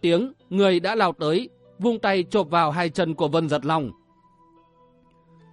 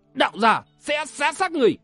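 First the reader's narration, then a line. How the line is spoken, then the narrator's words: Furious shout. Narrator (Vietnamese): lửa giận liền bùng cháy, quát lên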